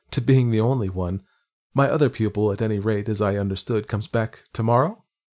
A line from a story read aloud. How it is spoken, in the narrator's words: I could laugh